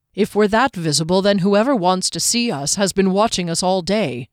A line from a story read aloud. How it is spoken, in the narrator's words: Derry said, his tone far drier than the land